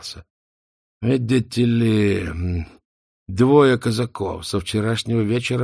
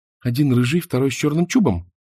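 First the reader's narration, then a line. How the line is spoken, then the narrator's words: Quick question. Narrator (Russian): быстро спросила Мона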